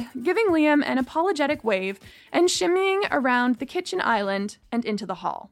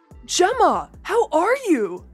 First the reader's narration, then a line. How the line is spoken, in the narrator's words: Tyler called happily